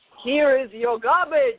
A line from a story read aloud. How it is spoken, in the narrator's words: roars the heron